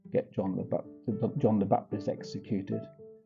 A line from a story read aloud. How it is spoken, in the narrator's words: She heard her mother whisper